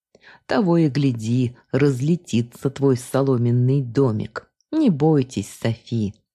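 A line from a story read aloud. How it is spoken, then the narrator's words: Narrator laughing. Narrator (Russian): засмеялся рассказчик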